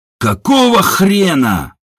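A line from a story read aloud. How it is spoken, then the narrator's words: Furious roar. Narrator (Russian): взревел Ажур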